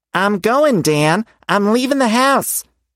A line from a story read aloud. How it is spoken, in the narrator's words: shouted through the window